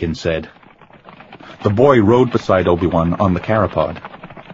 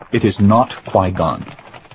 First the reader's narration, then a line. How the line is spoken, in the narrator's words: he said stiffly